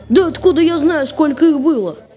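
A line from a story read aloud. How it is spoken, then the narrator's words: Strained squeak. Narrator (Russian): не своим голосом пропищал кузнец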